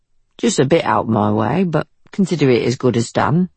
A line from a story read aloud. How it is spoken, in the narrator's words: said Billy